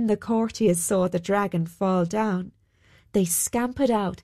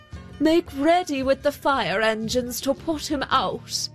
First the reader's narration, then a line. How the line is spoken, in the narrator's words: he called out